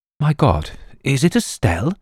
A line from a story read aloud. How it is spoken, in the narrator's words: Sir George gasped to himself